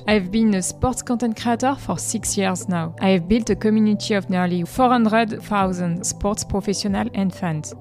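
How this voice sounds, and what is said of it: French accent in English. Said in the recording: “As you can hear from my accent, I'm French.”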